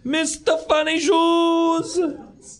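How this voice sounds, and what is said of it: Shouted bad Italian accent. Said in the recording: “He like yells it out ... done in this horrible Italian accent”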